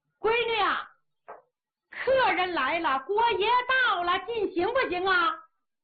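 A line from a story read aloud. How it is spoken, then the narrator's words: Calling loudly upstairs. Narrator (Chinese): 板娘冲上边喊了一嗓子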